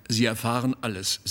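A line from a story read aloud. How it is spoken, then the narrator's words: Plain. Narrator (German): sagte er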